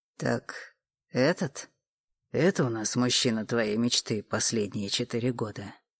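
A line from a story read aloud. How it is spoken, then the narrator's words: Menacing question. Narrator (Russian): Очень страшным голосом спросил Олег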